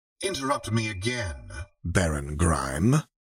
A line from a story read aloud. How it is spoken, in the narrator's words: Renata said coolly